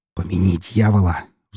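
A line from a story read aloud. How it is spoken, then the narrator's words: Weary sigh. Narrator (Russian): вздохнул я, ощущая острое чувство дежавю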